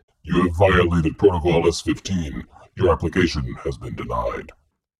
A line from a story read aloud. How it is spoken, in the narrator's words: It ... in a deep voice said